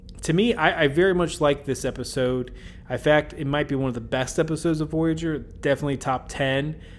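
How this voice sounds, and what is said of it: Kentucky accent. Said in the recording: “My Kentucky accent may be getting in the way.”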